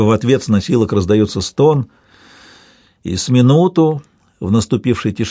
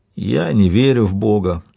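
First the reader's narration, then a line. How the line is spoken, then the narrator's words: Weak voice. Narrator (Russian): слабым голосом говорит кто-то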